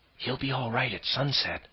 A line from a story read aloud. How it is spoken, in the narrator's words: Jane whispered